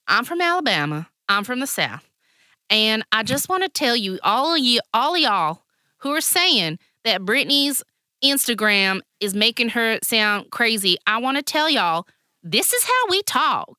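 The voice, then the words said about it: Put-on Southern US accent. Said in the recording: “I'm from the South. And I'll do the accent.”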